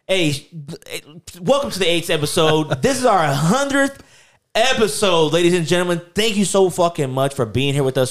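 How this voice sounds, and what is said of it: Shouting excitedly. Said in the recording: “Sorry, I'm shouting.”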